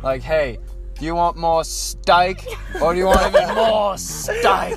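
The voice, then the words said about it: Put-on Australian accent. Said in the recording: “teach us how to do an Australian accent ... you just sound like a certified Aussie”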